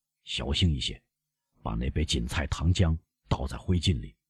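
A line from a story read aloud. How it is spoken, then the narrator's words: Low voice. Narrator (Chinese): 他低声补充说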